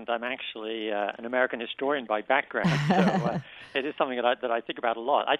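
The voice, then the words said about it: British accent. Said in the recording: “despite my accent ... when I go back to Britain”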